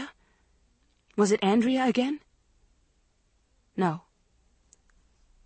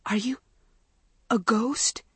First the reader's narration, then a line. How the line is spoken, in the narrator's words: Maggie managed to utter in a choked whisper